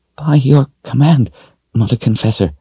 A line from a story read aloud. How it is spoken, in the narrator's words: one woman said in a shaking voice